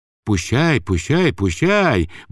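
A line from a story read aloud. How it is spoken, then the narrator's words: Muttering. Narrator (Russian): бормотал он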